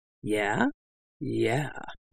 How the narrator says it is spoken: I murmured throatily

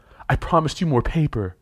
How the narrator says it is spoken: Imala held in a shriek

